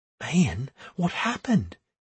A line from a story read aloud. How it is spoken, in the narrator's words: she whispered